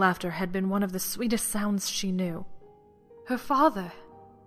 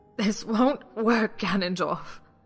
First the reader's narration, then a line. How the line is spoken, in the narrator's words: she said hoarsely